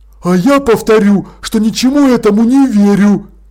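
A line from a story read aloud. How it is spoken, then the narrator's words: Exclaiming. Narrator (Russian): воскликнула Холтер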